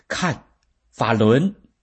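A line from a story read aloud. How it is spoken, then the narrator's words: Shout. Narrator (Chinese): 有一个大法弟子喊道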